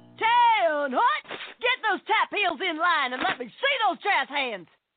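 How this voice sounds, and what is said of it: Drill instructor impression. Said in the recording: “my impression of a drill instructor directing a musical”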